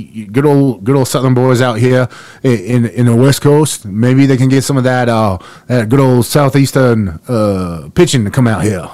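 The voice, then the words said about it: Cajun Southern drawl impression. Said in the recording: “I sound like a mix between Cajun gumbo and Coach O ... a very, very good impression of Coach O”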